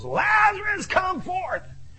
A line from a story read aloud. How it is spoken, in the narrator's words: he yells